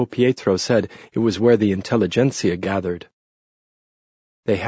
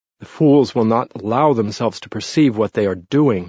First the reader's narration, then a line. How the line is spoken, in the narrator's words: said bitterly